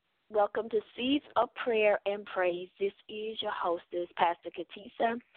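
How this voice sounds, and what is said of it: Slightly hoarse voice. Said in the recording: “my voice, a little bit hoarse”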